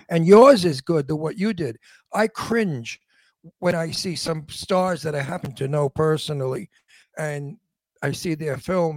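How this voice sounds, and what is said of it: Old-fashioned Brooklyn accent. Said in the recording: “they hire me for my Brooklyn accent... My Brooklyn accent is called antique Brooklyn... it is an antique accent”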